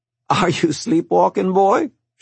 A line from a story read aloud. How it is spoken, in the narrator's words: She laughed